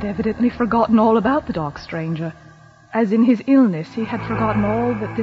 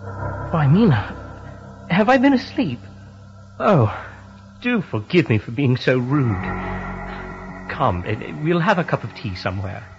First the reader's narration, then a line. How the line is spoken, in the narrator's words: said to me quite cheerfully